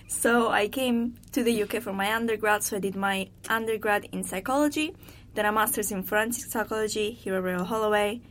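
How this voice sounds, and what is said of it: Strong Italian accent. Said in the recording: “I'm actually Italian, as you might be able to tell ... It's a really strong accent”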